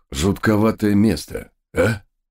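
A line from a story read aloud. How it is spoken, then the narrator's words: Smirking grunt. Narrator (Russian): хмыкнул один из догов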